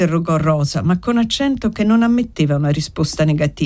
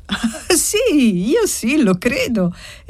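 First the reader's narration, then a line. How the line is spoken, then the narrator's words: Lively child's exclamation. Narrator (Italian): esclamò vivacemente la bambina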